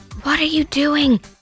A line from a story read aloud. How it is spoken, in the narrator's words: hissed Mr